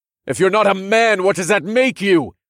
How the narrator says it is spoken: I shouted into the tense air

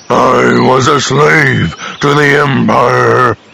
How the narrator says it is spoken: Ralra growled softly

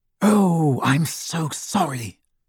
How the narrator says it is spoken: hissed Hermione

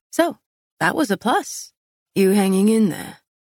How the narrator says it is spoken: he asked in a low voice

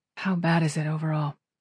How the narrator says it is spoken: She asked, her voice low

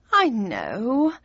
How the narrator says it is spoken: sighed

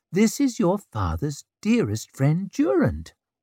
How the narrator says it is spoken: cooed at the babies

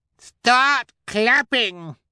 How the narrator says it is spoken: she shrieked

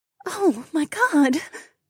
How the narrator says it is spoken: Becca breathed, she seemed too shocked

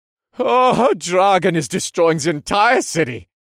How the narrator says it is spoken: the man wailed

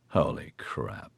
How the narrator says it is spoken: Oscar muttered

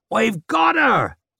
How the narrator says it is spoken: One shouted in triumph

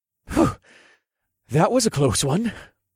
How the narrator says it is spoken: observed in a breathless voice

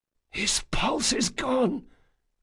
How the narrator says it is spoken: Locke whispered

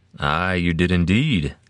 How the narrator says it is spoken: Zell said

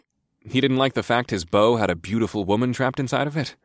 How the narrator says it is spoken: I snorted

